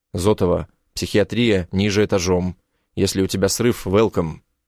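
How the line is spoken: Cold curt remark. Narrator (Russian): Бросаю холодно

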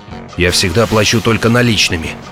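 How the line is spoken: Muttered. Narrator (Russian): пробормотал Эд

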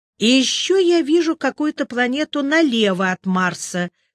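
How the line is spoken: Uncertain. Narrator (Russian): сказал я неуверенно

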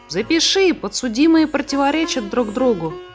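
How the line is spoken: Exclaimed. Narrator (Russian): воскликнул Сниф

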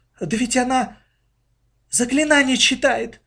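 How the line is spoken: Sudden exclamation, mother. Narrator (Russian): вдруг воскликнула мама

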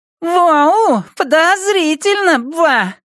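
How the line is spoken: Squeaky voice. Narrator (Russian): пропищал Уолли

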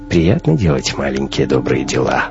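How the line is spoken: Snorting. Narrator (Russian): хмыкнул Хаген

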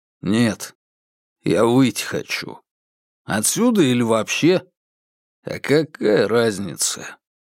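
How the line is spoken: Nervous laugh. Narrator (Russian): Четвертый нервно хохотнул

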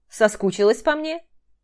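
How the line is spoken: Smirking snort. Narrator (Russian): хмыкнул Дима

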